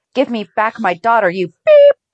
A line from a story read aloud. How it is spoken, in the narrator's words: shouted Laura